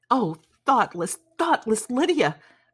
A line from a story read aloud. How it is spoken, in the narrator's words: cried Elizabeth